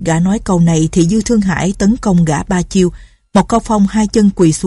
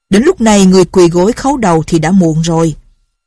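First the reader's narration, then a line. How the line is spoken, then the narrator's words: Loud laughing. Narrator (Vietnamese): Lâm Bình Chi cười to ha hả, nói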